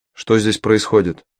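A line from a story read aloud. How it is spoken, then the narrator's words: Sharp question. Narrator (Russian): резко спросил Мао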